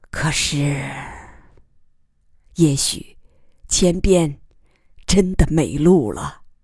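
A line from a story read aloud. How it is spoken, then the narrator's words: Hoarse after long silence. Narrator (Chinese): 姬仁瑞沉默良久，声音嘶哑地说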